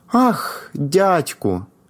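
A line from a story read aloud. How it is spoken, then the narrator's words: Joyful exclamation. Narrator (Ukrainian): вигукнув Палко, стриваючи від радощів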